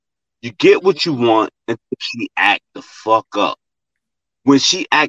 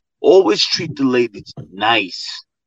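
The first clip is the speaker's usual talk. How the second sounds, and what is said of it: Put-on fabulous voice. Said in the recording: “I'm in my fabulous voice”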